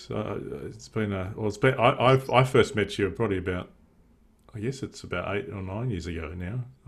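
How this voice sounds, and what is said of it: Australian accent. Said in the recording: “I apologize for the Australian accent. It is hard to understand”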